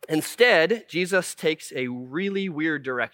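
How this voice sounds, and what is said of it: Usual voice. Nothing is said of it.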